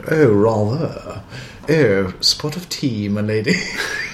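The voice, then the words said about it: Plummy English accent. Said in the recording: “doing a plummy English accent.”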